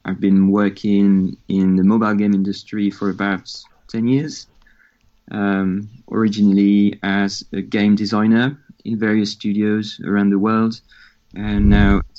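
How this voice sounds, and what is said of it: French accent in English. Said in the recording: “I'm French, as you can hear from my accent.”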